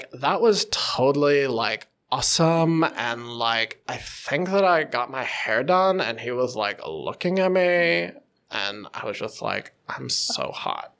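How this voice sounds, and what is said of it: Exaggerated Valley Girl accent. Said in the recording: “the Valley Girl ... this is an over exaggeration ... that kind of accent ... it doesn't give that air of sophistication”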